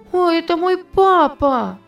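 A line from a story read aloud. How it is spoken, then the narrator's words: Excited shout. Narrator (Russian): закричала она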